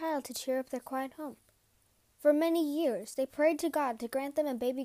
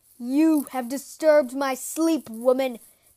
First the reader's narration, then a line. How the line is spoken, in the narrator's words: the giant roared